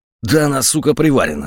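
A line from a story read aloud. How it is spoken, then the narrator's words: Growled. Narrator (Russian): зарычал Бутовский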